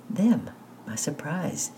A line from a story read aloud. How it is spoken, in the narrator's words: she answered softly, her eyes shining